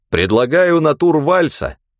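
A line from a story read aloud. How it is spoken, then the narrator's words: Loud. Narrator (Russian): громко сказал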